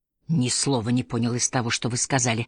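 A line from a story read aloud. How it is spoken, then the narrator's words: Irritated. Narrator (Russian): раздраженно заметил Питер Лорд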